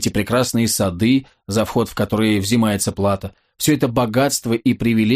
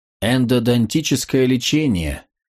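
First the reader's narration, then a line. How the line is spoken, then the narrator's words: Seductive purr. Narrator (Russian): соблазнительно промурлыкала Шерон ему в ухо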